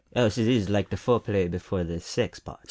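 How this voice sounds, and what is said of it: Put-on accent of a film character. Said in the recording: “Stop with the new accents. You've done like six now ... I was trying to do that captain guy ... From Rogue One”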